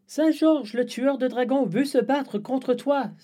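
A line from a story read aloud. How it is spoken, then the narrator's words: Boy exclaiming. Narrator (French): s'écrie le garçon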